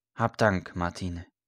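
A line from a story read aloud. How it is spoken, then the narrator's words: Soft priestly voice. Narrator (German): sagte der Priester leise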